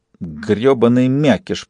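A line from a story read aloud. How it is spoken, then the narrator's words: Boy hissing. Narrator (Russian): прошипел мальчуган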